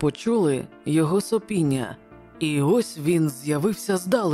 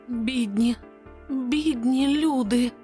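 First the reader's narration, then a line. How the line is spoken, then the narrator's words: Moan. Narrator (Ukrainian): застогнала нарешті пані Челленджер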